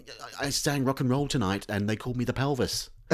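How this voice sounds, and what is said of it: Put-on northern English accent. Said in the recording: “he's developed a northern accent.”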